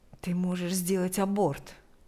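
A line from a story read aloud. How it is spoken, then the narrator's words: Whispered suggestion. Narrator (Russian): предложил он шепотом, чтобы слышала только Лика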